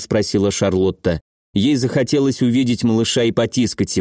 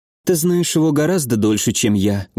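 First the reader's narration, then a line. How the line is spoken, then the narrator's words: Sad. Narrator (Russian): грустно сказала Адель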